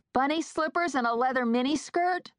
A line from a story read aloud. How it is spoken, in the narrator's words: I called out to her